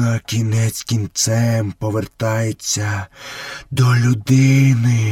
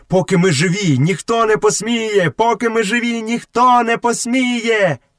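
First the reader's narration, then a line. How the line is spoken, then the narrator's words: Frenzied group shouting. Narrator (Ukrainian): Сірий брат і решта троє несамовито закричали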